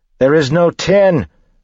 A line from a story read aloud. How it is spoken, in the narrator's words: Spook yelled